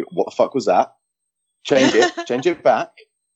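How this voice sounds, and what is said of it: Imitates another person's voice. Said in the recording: “That's a really good impression. ... That was a really good impression.”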